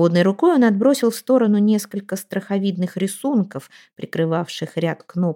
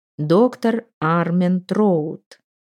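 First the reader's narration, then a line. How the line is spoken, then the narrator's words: Slow, breathless speech. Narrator (Russian): также медленно сказал он, с трудом набрав воздуха для этих слов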